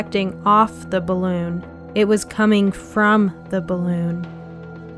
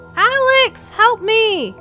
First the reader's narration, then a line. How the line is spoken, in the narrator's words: Fee screamed